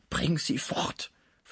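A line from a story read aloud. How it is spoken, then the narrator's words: Whispered into ear. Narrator (German): flüsterte Pons in das Ohr Schmuckes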